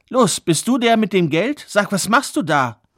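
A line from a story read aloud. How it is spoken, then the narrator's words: Called out. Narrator (German): rief der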